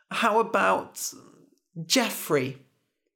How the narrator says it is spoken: Rumpelstiltskin laughed

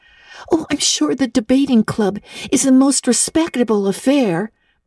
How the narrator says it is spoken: pleaded Anne

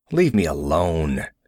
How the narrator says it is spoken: he snarled

